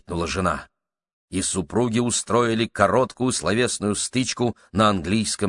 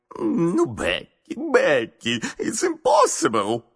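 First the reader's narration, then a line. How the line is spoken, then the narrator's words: Husband moaning. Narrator (Russian): стонал муж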